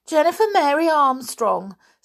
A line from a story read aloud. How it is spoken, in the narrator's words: said Jenny in a surprised voice